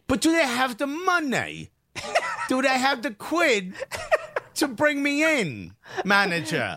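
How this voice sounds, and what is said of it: Deliberately bad put-on English accent. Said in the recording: “We're just doing a terrible English accent”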